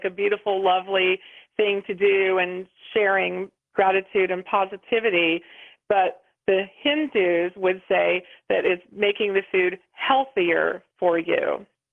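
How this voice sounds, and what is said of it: Slight West Virginia accent, pretty voice. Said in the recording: “you have a very pretty voice ... that little West Virginia accent in there”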